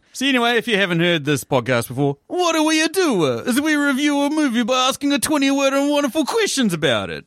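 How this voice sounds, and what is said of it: Put-on Italian accent. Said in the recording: “This damn accent. ... I'm trying to insert the most random Italian shit whenever I can, and then just go back to normal accent”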